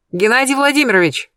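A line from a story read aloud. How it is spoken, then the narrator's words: Shout. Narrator (Russian): крикнула я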